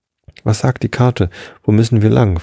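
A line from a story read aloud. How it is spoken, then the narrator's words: Plain. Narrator (German): fragte Simonas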